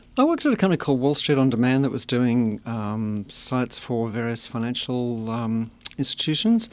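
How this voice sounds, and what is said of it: Australian accent. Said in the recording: “Does my accent give it away? Yes, I'm from Australia.”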